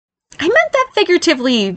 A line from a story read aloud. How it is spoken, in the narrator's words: Barry exclaimed